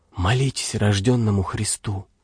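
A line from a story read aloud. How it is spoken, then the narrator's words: Old man's sighing whisper. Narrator (Russian): Старик тоже вздохнул и с таким же шепотом сказал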